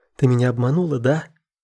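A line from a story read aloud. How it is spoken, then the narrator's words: Crying out. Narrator (Russian): вскрикнула Алина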